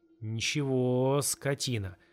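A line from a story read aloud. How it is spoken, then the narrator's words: Drawled through clenched teeth. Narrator (Russian): протянула она сквозь стиснутые зубы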